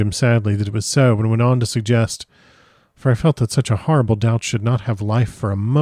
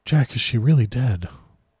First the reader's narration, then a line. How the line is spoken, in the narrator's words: after a long pause, he said to me in a faint whisper